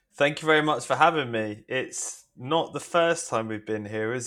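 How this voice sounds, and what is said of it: Southeast English accent. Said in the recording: “you have got an accent ... I am from Hastings in the southeast of England”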